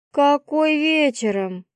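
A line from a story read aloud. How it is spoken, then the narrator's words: Drawn-out drawl. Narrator (Russian): протянула я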